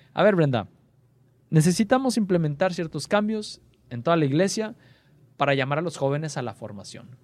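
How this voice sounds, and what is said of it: Put-on Argentine Spanish accent. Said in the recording (Spanish): “así con su acento argentino”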